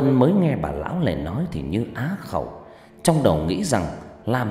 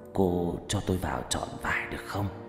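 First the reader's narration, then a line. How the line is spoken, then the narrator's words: Hoarse old woman's voice. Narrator (Vietnamese): Bà ta nói bằng giọng khào khào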